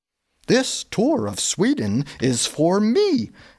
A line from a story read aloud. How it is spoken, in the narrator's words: exclaimed Gustav